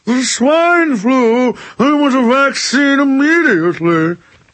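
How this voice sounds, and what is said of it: Posh, polished upper-class voice. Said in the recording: “In the city, you talk like this, very official and polished. ... Love you, Thurston Howell III.”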